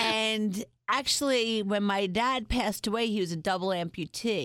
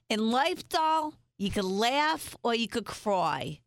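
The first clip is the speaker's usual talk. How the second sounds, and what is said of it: Imitated Bronx New York accent. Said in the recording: “a New Yorker who is a little bit of a Joan Rivers kind of character ... in her Bronx, New York accent”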